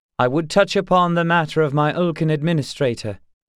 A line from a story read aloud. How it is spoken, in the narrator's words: the former king said, raising his voice above the din